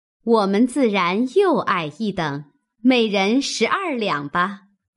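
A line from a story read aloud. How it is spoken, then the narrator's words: Women laughing. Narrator (Chinese): 尤氏、李纨也笑道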